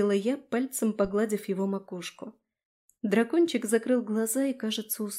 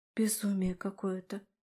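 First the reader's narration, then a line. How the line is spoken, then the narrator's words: Undertone. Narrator (Russian): вполголоса проговорила я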